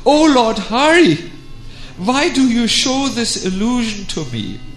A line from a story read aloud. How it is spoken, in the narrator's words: Radha cried out